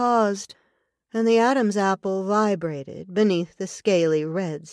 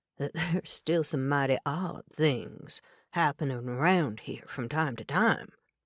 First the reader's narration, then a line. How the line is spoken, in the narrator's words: the native said in his soft brogue